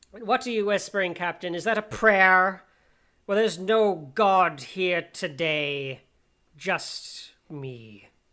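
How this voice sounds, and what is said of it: Red Skull villain voice impression. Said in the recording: “I won't try to do the Johann Schmidt voice, but I will do my best.”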